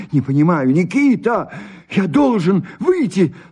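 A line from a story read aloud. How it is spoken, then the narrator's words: Trembling voice. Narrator (Russian): сказал он дрогнувшим голосом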